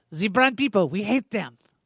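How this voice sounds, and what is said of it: Put-on Belgian accent. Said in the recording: “is that your Belgian accent? ... that's my Belgium voice”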